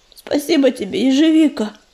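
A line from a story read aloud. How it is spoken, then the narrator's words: Hoarse rasp. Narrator (Russian): прохрипел уголек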